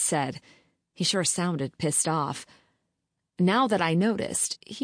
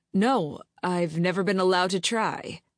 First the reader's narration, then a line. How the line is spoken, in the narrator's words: said through clenched teeth